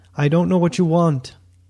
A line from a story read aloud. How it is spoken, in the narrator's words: he begged